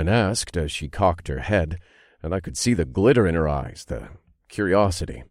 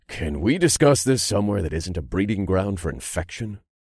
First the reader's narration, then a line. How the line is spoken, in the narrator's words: I asked tightly